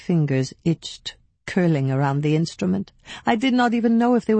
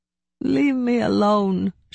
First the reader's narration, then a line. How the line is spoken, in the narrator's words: she wailed